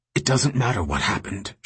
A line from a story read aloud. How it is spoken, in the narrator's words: said urgently